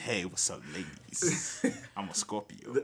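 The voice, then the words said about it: Smooth R&B Quiet Storm voice. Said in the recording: “don't put on your R&B voice ... put on his Quiet Storm voice.”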